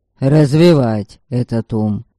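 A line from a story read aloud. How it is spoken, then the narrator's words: Snapped retort. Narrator (Russian): огрызнулся король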